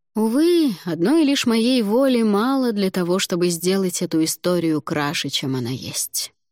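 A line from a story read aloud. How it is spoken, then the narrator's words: Sigh. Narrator (Russian): вздохнул Алвар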